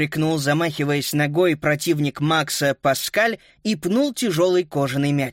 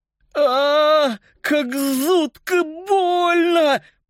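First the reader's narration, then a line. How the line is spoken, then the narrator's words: Lisping in pain. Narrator (Russian): прошепелявил он, падая на пол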